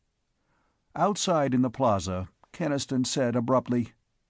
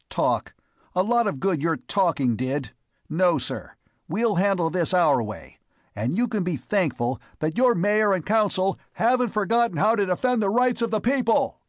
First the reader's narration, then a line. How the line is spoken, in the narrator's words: His voice rose almost to a shout to carry the last words to Hubble